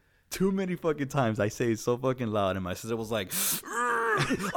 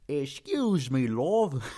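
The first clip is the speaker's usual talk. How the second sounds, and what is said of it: Deliberately exaggerated British accent. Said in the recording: “when I do the British accent, I do this on purpose just to piss her off”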